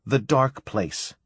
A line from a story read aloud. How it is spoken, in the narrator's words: said